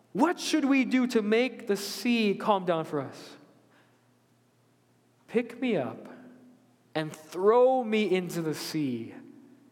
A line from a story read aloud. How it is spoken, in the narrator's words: replied